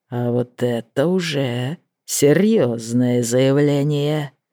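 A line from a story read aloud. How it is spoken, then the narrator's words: Hoarse. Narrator (Russian): произнес Чейзер хрипло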